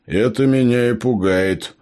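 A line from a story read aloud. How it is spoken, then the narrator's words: Grumbling. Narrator (Russian): проворчал Джо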